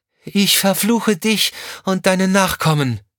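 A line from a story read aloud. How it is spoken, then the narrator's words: Called out. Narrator (German): rief sie dem Mann zu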